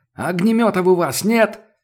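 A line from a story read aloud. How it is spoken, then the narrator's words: Sudden yell over gunfire. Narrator (Russian): заорал вдруг Сашка сквозь грохот очередей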